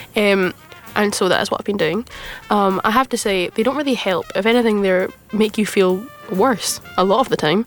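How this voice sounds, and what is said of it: Rough voice from a cold. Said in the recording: “tell by my voice being a little bit rougher than normal, I've been a little bit ill, I've had a cold”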